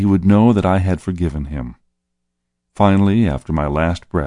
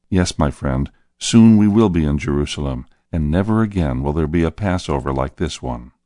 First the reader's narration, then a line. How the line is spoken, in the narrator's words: I said softly